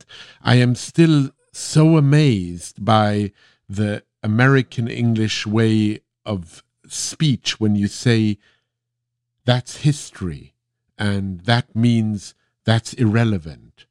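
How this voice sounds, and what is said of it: Lingering non-native accent. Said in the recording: “I think not quite having gotten rid of my accent”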